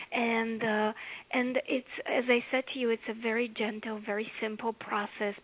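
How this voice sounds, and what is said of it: Bulgarian accent. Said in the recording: “As you can tell by my accent, I didn't grow up here in America. I grew up in Bulgaria.”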